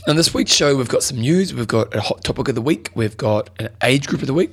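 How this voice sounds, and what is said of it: Hoarse, fading voice. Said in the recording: “As you can tell, I'm losing my voice”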